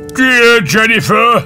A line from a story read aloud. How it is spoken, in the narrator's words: the wolf howled